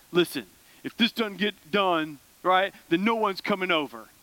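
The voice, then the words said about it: Imitates a dad's voice. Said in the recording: “that's my best dad voice.”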